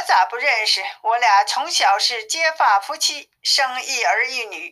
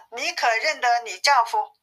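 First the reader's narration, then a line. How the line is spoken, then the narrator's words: Plain. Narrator (Chinese): 公主说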